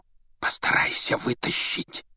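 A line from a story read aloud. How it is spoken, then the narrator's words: Whispering. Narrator (Russian): шепнул Рон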